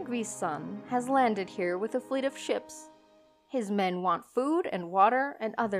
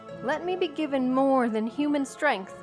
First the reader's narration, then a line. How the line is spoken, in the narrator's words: I cried